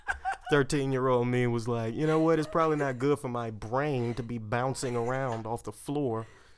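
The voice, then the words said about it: Thick regional accent. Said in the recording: “I got to get rid of this accent. ... You go into it real hard when you start talking about where you're from. ... Gets real thick.”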